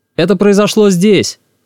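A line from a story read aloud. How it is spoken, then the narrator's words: Shouted. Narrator (Russian): крикнул Олег Львович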